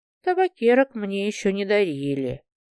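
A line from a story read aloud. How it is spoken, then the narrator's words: Quiet. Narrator (Russian): тихо сказала она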